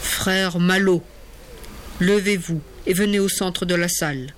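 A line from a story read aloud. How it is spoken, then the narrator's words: Curt tone. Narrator (French): dit alors Jean-François d'un ton sec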